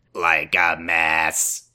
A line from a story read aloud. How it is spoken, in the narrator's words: she said, her voice crackling